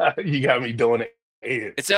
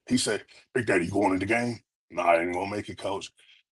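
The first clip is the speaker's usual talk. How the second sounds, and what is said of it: Ed Orgeron impression. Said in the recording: “in your Ed O voice”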